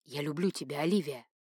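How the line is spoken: Soft whisper. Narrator (Russian): Дамиан тихонько прошептал

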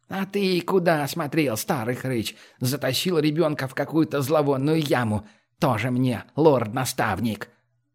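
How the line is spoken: Angry grumbling. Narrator (Russian): сердито ворчащей Лимми

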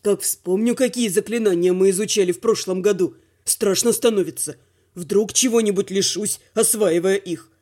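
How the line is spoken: Muttering. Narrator (Russian): пробормотал Дима

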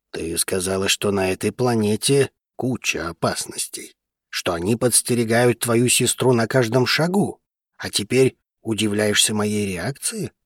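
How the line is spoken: Grumbling. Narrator (Russian): проворчал друг

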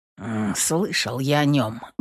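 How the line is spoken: Curt mutter. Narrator (Russian): буркнул Ефим

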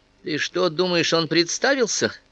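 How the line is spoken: Laughed again. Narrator (Russian): Бью снова рассмеялась

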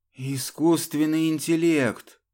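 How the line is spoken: Breathed out. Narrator (Russian): выдохнул Гришин

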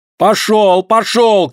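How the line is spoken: Shouting. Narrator (Russian): кричала Вероника

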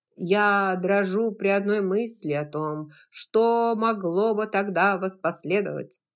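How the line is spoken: Plain. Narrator (Russian): сказал Ред Батлер

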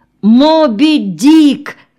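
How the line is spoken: Shouted. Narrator (Russian): крикнул Веня

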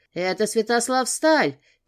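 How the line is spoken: Shout. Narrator (Russian): крикнул кто-то

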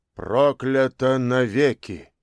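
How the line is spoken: Solemn. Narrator (Russian): Еврей меняла, не менее торжественно произнес

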